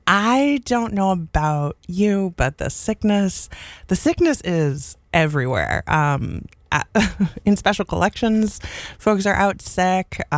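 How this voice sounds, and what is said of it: Congested, stuffy-nosed voice. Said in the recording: “I can hear the congestion in my voice.”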